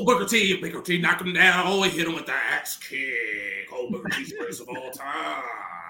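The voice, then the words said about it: Wrestling commentator voice. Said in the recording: “commenting on Booker T in a commentary voice ... He was doing it in third person”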